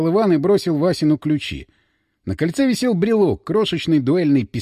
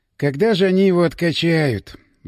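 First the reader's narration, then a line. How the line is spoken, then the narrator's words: Sighing. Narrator (Russian): вздохнул он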